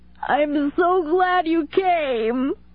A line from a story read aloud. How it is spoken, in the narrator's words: she wailed